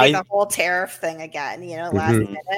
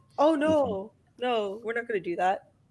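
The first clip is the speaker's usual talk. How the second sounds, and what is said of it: Donald Trump impression. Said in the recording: “That's my Trump impression.”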